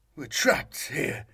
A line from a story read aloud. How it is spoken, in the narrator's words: the man said unsteadily